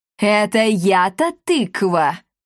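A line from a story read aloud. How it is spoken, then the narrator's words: Woman roaring furiously. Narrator (Russian): взревела комендантша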